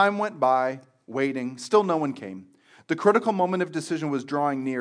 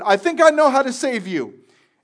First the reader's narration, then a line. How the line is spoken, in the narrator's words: shouted